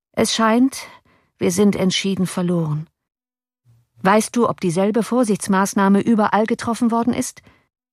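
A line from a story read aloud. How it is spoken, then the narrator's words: Calm. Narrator (German): sagte Cornelius ruhig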